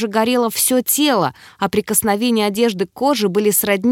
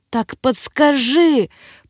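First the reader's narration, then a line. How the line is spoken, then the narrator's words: Pained rasp. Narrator (Russian): прохрипела я, корчась на кровати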